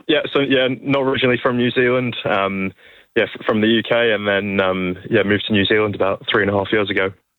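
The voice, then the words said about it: Slight UK accent. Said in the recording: “a little bit of an accent I recognise? I sense or hear there?”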